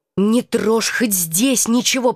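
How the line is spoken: Hissing. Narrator (Russian): прошипела я

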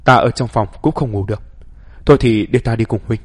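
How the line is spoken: Sighing. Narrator (Vietnamese): Thái Úy Lý thở dài nói

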